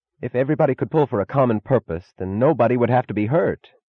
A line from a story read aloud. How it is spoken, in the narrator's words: he cried suddenly, in a tone of incongruous despair